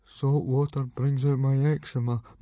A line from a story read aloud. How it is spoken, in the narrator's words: mumbled Fishlegs